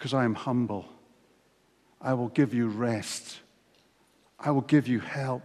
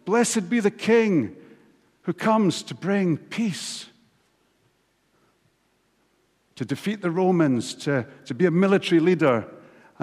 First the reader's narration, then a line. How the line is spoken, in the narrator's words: the crowds were shouting